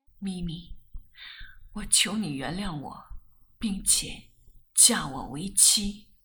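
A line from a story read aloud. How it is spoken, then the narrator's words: Choked with sobs. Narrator (Chinese): 我哽咽地说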